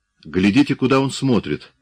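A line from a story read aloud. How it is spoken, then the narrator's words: Exclaimed. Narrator (Russian): воскликнул Салые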